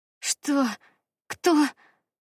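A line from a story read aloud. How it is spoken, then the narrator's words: Hoarse rasp after spitting. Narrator (Russian): Отплевавшись, прохрипела я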